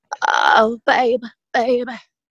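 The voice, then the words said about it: Imitates another person's voice. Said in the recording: “a really good impression of someone famous ... that little portion that sounds like her”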